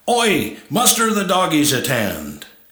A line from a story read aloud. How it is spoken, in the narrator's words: the Aussie was next in command, and barked out orders